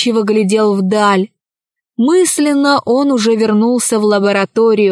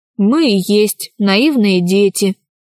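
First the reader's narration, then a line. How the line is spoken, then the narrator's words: Gloomy. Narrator (Russian): мрачно ответил Аркаша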